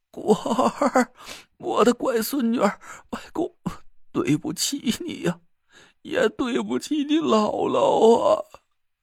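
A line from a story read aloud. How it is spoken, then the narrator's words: Hoarse, crying old man. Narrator (Chinese): 楚寒楼顿时就干哑着嗓子哭了起来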